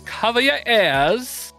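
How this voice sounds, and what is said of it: Poor attempted British accent impression. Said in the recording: “It's my best British accent. ... That was horrible. ... this is my best Ozzy impersonation.”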